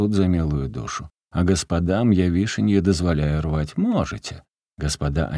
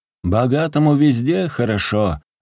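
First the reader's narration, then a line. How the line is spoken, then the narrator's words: Old man's pained distant shout. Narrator (Russian): с обидой и болью в голосе кричал где-то внизу старик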